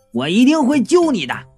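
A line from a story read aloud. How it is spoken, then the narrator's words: Loud shout. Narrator (Chinese): 我大声的对他喊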